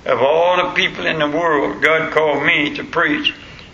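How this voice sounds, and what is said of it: Regional accent. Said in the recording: “the voice that I got and the language that I use ... You got an accent.”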